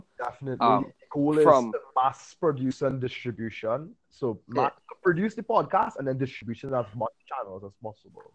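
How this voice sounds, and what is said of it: Trinidadian accent. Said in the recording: “accent we have, it's a Trinidadian accent. Trinidadian. It's actually from the Caribbean.”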